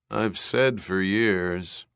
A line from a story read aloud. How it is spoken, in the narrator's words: Resch murmured